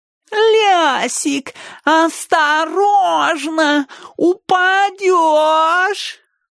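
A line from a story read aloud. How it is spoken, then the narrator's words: Nasal singsong. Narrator (Russian): пропел он гнусаво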